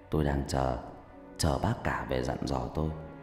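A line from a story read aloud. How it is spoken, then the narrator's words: Sighing. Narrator (Vietnamese): Ông Cử thở dài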